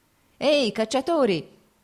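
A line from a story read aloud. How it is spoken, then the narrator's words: Peasant's shout. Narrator (Italian): gridò loro uno dei contadini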